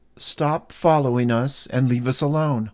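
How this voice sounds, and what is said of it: Stern motherly voice. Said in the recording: “I said sternly in my best mama voice.”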